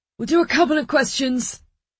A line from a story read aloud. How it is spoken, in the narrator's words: Clemo shouted